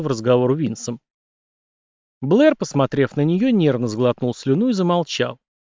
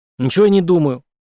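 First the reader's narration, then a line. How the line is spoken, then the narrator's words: Snapping back. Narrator (Russian): огрызнулся Мик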